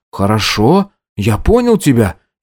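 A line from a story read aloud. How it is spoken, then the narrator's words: Frightened reply. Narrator (Russian): испуганно отозвался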